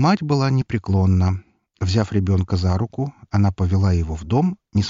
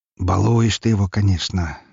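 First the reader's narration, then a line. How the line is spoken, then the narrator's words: Man's sigh. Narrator (Russian): вздохнул сидящий в кресле мужчина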